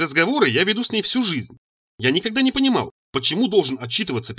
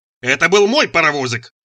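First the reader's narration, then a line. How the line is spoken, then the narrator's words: Frantic screaming. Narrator (Russian): завопил я, как резанный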